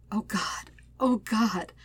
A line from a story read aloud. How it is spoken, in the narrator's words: whimpers